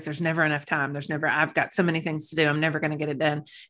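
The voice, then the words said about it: Very fast, rushed speech. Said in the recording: “I say it in that fast voice ... It shoots through at 3 times the normal speed.”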